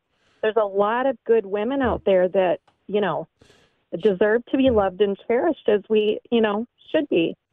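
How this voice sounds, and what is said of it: Teary, emotional voice. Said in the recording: “I'm a little teary”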